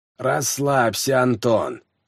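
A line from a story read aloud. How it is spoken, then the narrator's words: Creaky voice. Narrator (Russian): проскрипел Романов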